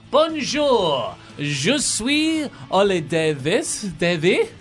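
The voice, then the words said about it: Put-on French accent. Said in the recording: “Why are you doing the accent?”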